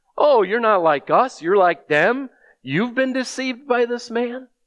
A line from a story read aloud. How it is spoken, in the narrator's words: And they're mocking these officers, saying